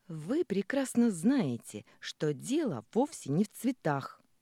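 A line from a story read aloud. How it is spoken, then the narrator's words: Indignant exclamation. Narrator (Russian): воскликнула возмущенно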